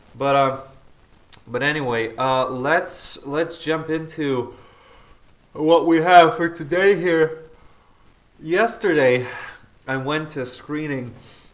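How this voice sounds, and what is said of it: Stuffy, congested nasal voice. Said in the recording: “I have like a stuffy nose or something, right? So that's why I sound kind of weird.”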